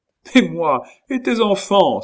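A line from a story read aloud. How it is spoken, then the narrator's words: Distressed woman's cry. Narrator (French): s'écria la malheureuse femme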